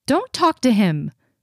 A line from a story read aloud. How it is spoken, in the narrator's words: says sharply from the top of the stairs